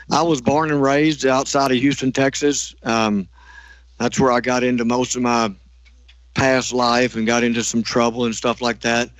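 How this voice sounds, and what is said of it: Slight Southern US accent. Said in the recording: “a little bit of an accent in your voice”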